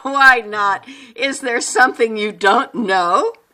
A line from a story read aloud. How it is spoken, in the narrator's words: Mercer laughed, perhaps a bit too loud, and said